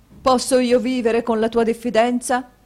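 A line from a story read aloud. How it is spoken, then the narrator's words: Exclaimed. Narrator (Italian): esclamò il marito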